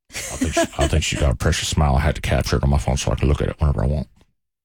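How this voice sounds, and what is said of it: Old man character voice. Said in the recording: “I'm doing a great old man voice”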